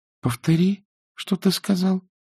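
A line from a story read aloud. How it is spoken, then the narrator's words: Quiet request. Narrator (Russian): тихонько попросила Изабель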